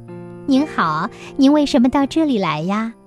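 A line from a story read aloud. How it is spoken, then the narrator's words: Smiling woman asking. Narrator (Chinese): 女郎满面笑容地问男孩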